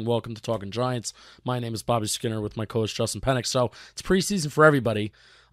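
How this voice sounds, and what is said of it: Strained, poor-sounding voice. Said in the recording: “sorry for my voice. This is kind of terrible.”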